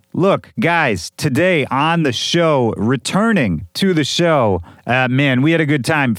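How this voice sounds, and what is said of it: Slightly hoarse, worn-out voice. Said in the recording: “You can probably hear my voice is a little shot”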